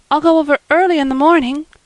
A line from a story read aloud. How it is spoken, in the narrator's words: said Anne eagerly